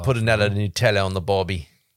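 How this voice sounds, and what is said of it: Weak put-on Australian accent. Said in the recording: “Not a great Australian accent.”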